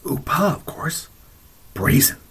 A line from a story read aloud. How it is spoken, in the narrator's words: People would lean closer and whisper harshly